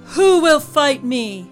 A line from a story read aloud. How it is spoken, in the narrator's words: Goliath's voice boomed